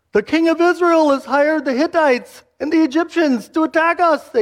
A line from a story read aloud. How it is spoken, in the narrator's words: cried out